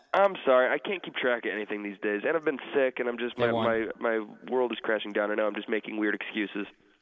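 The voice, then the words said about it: Congested, stopped-up voice. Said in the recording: “you sound terrible ... a little stopped up”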